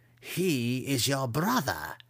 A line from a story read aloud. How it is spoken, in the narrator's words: Matron Malus reminded her